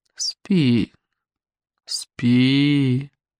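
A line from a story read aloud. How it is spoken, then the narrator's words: Even voice. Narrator (Russian): ровным голосом проговорил граф Мортигер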